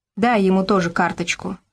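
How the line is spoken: Plain. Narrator (Russian): сказал Гаврош

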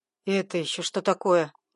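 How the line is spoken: Displeased grumbling. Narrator (Russian): недовольное бурчание

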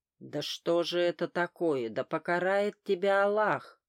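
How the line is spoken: Yelling in strange voice. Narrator (Russian): заорал шкаф не своим голосом

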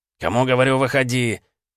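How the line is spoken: Impatient bark. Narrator (Russian): нетерпеливо рявкнул Вилкс

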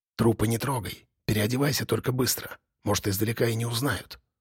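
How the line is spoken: Whispering. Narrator (Russian): прошептала Юля

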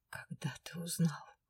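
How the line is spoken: Desperate whisper. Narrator (Russian): Помертвевшими губами прошептала я в отчаянии

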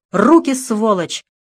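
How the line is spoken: Loud shout. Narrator (Russian): громко крикнула Лиза

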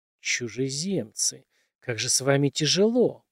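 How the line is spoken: Angry hiss. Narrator (Russian): прошипел рассерженный голос

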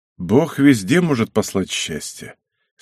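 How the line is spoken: Softened voice. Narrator (Russian): смягченным голосом сказал Мацко

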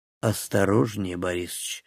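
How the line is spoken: Quiet. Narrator (Russian): негромко проговорил он

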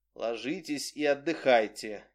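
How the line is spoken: Soft. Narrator (Russian): мягко сказал Репин

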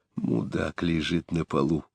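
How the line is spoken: Whisper. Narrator (Russian): прошептал Заров

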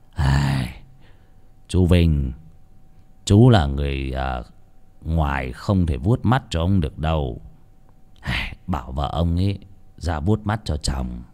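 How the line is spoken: Sighing. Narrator (Vietnamese): ông thầy cúng thở dài, bảo

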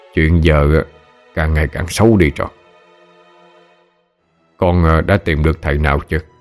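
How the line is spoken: Stern question. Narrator (Vietnamese): Ông nghiêm giọng hỏi

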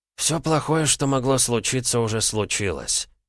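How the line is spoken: Grumbling. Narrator (Russian): буркнул Роман

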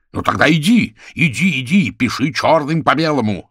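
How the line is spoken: Yelled. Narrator (Russian): заорал он

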